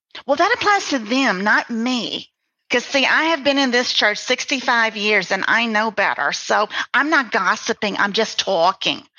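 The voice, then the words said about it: Put-on gossipy church lady accent. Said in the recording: “Don't know why I did that accent ... I know those women ... They all talk like that.”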